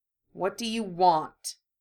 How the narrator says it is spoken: Harry asked coldly

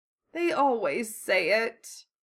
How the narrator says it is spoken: Nanako grumbled

